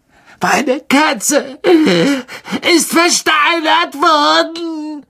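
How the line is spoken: Shrieking. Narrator (German): kreischte er

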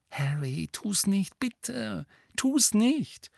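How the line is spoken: Frightened voice. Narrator (German): sagte Hermine mit verängstigter Stimme

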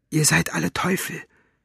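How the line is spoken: Whispered. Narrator (German): flüsterte

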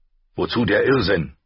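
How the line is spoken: Curt, brusque. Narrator (German): sagte schroff

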